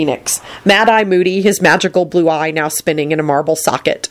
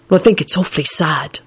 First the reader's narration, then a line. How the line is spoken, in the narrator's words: Neville whispered back